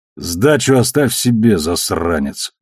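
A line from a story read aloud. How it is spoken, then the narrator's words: Gruff mutter. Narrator (Russian): буркнул он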